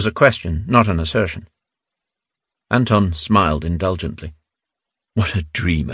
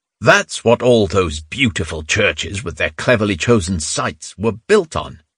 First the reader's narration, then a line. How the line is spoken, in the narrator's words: Anton thundered